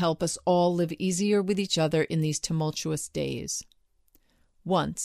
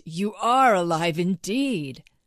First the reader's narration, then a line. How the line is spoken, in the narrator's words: cried the ant